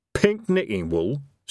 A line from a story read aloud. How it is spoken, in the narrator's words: said Evil Harry nervously